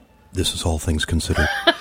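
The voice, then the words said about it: NPR public radio announcer voice. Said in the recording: “That's her NPR voice ... His NPR voice”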